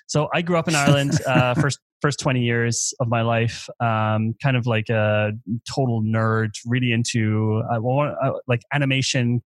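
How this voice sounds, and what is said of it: Irish accent. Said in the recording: “I'm Irish ... Not a very German accent.”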